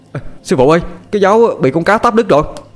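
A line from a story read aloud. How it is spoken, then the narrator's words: Boy crying out. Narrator (Vietnamese): Thằng Toàn kêu lên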